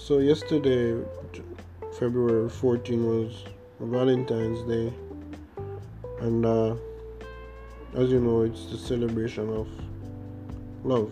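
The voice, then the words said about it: Jamaican accent. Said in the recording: “from you hear my accent, you can tell that I'm Jamaican”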